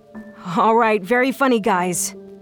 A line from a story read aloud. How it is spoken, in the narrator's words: I called out